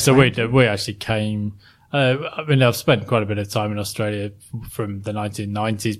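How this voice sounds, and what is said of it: English accent. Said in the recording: “I've never lost the English accent.”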